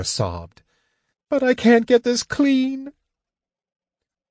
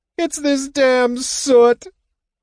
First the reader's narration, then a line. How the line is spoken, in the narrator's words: Tika wailed